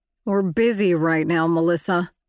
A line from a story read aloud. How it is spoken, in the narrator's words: Chapman snapped